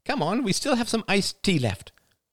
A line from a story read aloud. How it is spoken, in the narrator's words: cried